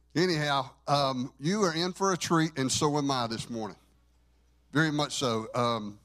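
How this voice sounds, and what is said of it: Southern American accent. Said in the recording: “my most real Southern dialect as possible. I don't have to try. It happens.”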